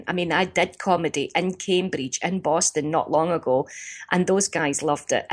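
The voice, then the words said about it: Strong Scottish accent. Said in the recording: “our accent, you know, can be difficult, but the accent is stunning, strong and decisive. Our Scottish accent”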